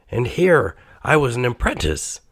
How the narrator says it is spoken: cried

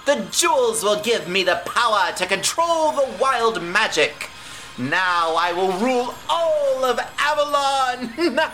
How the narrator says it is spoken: cackles Lady Kale

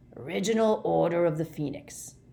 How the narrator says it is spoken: growled Moody

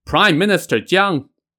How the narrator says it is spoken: the person shouted

